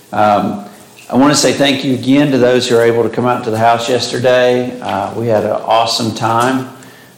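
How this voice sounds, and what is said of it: Slightly hoarse voice. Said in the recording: “my voice is a little hoarse. ... I start getting a little hoarse.”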